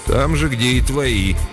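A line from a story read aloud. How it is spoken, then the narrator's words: Snorting chuckle. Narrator (Russian): хмыкнул Дейл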